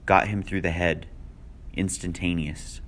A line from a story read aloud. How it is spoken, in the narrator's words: said, still in the same lifeless voice